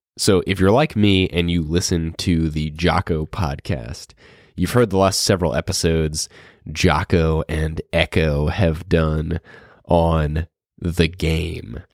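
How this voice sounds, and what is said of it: Strange-sounding voice from illness. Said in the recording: “I'm still getting over bronchitis, so you may hear my voice sounds a little strange”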